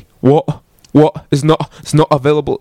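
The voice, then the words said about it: Put-on English accent, dropped Ts. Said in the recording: “I did my best to get an English accent ... you drop the T ... it's pretty good, yeah”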